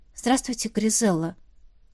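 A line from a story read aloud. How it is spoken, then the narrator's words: Quiet. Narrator (Russian): тихо произнесла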